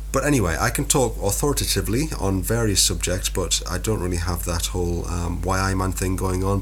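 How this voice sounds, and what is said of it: Northern English accent. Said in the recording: “whatever this accent is. I don't think it's full Geordie. It's definitely Northern.”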